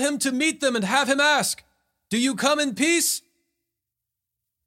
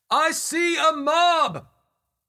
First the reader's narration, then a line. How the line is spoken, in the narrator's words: He shouted